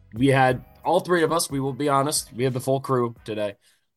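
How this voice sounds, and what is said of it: Voice sounding rough. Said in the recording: “You can probably tell right off the bat my voice sounds like shit.”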